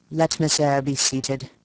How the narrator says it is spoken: he said … in the impatient yet formal tone

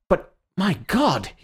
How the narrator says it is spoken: he cried out suddenly, like a man who sees an explosion a long way off

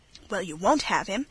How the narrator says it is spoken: exclaimed Margaret Sinton

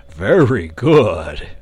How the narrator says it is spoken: returned the dragon cheerfully

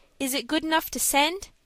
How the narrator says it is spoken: asked Dick anxiously

